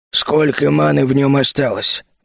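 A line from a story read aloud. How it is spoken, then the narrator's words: Gloomy question. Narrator (Russian): мрачно спросил Фархас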